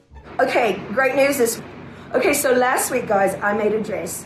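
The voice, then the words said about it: Vaguely British put-on accent. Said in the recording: “she does the whole thing in a vaguely British accent”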